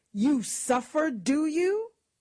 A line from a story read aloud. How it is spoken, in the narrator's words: she exclaimed